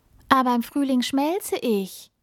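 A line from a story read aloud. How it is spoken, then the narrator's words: Small snowflake calling. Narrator (German): ruft die kleine Schneeflocke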